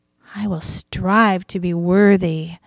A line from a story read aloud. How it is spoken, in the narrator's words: Mary whispered